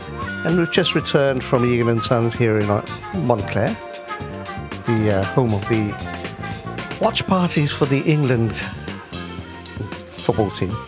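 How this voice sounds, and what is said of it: Slightly sore, strained voice. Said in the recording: “my voice is a little sore because I was screaming my head off”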